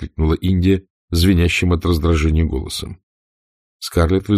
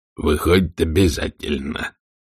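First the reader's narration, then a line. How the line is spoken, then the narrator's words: Cold statement. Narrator (Russian): холодно заявил он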